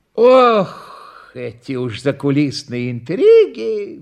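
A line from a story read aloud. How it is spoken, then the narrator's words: Sighed. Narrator (Russian): вздохнул Никифор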